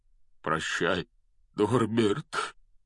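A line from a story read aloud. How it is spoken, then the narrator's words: Breaking, strained voice. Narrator (Russian): срывающимся голосом выдавил из себя Хагрид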